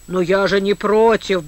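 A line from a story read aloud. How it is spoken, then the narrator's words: Grumbled. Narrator (Russian): буркнул Типуев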